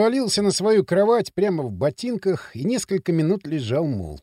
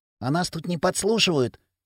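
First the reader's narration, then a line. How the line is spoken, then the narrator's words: Hissed. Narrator (Russian): зашипел он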